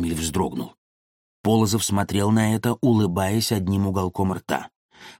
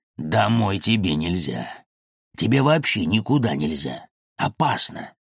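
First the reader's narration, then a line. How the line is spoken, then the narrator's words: Low hoarse whisper. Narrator (Russian): прошептал низко и хрипло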